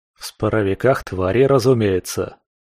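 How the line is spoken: Wry grunt. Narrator (Russian): хмыкнул

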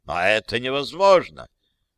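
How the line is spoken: Indignant. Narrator (Russian): возмущенно сказал Джузеппе Контарелло

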